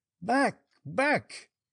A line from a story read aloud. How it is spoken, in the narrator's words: cried the bandit